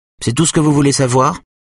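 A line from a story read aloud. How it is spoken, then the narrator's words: Curt question. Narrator (French): demande-t-elle sèchement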